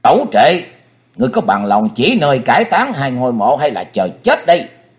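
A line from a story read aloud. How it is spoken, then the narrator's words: Thunderous roar. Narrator (Vietnamese): Thấy Hùng gầm lên tợ thiên sứ nạt hiệu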